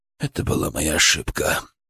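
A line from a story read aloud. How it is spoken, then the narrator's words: Quiet, to himself. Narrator (Russian): тихо сказал он, словно говорил сам с собой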